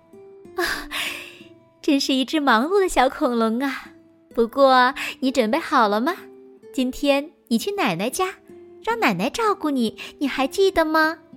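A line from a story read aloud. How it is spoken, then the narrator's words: Mother laughing. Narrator (Chinese): 妈妈笑道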